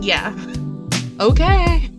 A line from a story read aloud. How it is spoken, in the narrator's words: Gemma laughed